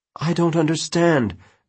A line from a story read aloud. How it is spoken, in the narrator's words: Alice said shakily